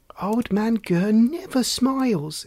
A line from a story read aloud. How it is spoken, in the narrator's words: exclaimed Lucinda